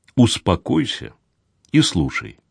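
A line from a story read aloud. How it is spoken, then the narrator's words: Quiet command. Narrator (Russian): тихо приказал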